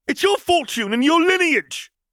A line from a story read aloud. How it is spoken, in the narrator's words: Draco spat back